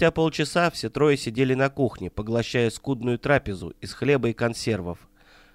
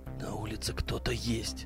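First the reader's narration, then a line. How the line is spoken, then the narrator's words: Whisper. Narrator (Russian): прошептал Кузнецов, не меняя выражения лица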